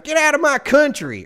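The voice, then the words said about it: Put-on Southern US accent. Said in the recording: “that accent ... He's from Texas ... it sounded like a guy from Alabama, but if he grew up in Texas”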